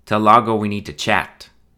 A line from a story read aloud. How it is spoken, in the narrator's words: he said firmly